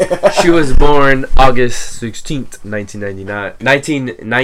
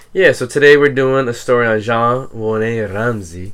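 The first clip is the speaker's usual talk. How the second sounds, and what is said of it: Poor put-on French accent. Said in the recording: “that was a terrible French accent”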